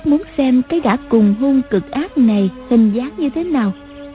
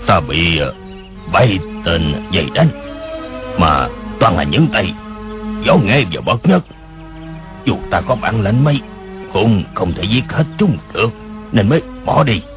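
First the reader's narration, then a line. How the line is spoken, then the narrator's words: Voice shifting shrill and booming. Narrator (Vietnamese): Tiếng người khi the thé khi ồm ồm kia nói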